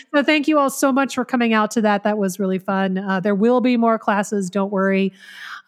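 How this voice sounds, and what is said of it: Worn-out, strained voice. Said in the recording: “my voice is shot and I didn't sleep last night”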